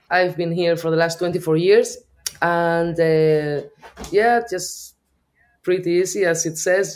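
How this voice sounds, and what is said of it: Spanish Basque accent in English. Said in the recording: “That's not an Irish accent. ... No, I'm from the north of Spain. I'm a Basque.”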